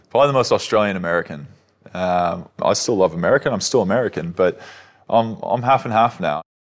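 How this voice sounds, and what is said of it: American voice with Australian accent. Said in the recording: “I'm still marveling at your accent. Are you the most American Australian or the most Australian American?”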